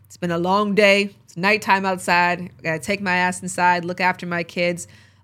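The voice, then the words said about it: Hoarse, tired voice. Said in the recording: “My voice is getting hoarse”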